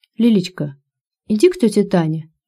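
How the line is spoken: Gentle, affectionate. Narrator (Russian): ласково произнес Мазаев

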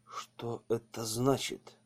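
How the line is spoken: Whispered question. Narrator (Russian): шепотом спросил поручик

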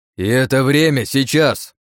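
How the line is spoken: Barking. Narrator (Russian): рявкнул я

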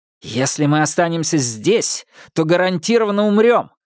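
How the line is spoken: Shouted. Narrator (Russian): выкрикнул Минхо

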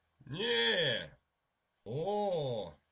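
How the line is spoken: Exclaimed. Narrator (Russian): воскликнул Уимзи

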